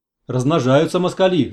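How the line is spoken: Grumbling. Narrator (Russian): заворчал Куров

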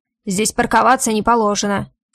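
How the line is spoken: Irritated bark. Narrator (Russian): раздраженно рявкает тот

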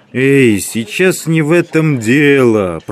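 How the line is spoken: Booming drone. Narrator (Russian): прогудел Абабков

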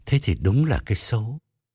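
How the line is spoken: Muttered. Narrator (Vietnamese): Ông Trường lẩm bẩm

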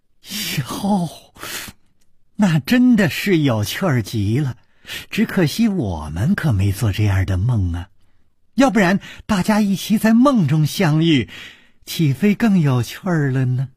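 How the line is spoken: Said laughing. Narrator (Chinese): 柳无眉笑着说

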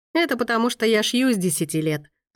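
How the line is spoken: Laughing woman. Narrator (Russian): рассмеялась Монна Ричи

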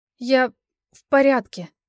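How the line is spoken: Halting, forced out. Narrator (Russian): запнувшись, удалось мне выдавить из себя

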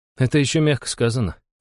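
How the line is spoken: Amused snort. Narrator (Russian): хмыкнул Иван

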